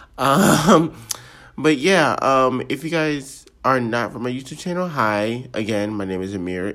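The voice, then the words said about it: Weird-sounding sick voice. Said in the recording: “I'm sorry if my voice sounds weird. I'm actually currently sick”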